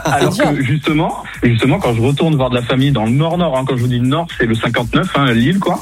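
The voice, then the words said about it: Slight southern French accent. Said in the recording (French): “j'ai l'accent du sud à fond ... si tu l'as un petit peu, pour nous qui sommes entre les deux, tu l'as un petit peu.”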